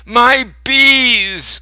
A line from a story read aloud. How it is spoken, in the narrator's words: Grandpa cried